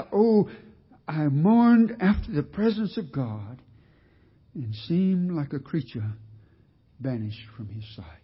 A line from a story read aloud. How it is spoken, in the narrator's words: he cried out